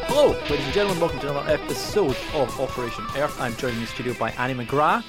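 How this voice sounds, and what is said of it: Scottish accent. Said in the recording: “I couldn't understand your accent ... I am the Scottish one”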